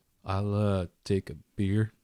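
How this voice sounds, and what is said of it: Silly put-on drawl. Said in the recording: “The drawl is an Andariel thing ... That's a silly voice.”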